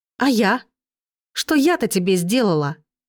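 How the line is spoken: Exclaimed with open resentment. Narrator (Russian): воскликнула с открытой обидой

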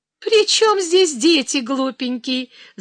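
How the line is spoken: Laughing young woman. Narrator (Russian): засмеялась девица

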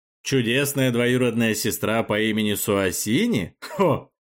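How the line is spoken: Chuckling. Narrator (Russian): Арбалун хохотнул

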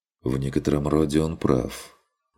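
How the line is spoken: Quiet remark. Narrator (Russian): негромко проронил Курт

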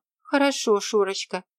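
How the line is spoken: Sighing woman. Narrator (Russian): вздохнула Софья Марковна

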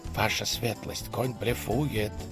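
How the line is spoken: Fervent whisper in ear. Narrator (Russian): горячо зашептал он на ухо курфюрсту

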